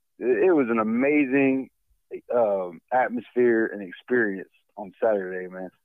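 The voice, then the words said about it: Slightly hoarse voice. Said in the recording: “My voice is a little hoarse from all that screaming”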